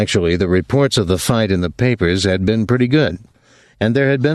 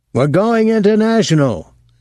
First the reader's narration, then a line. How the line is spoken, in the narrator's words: Schultze had said excitedly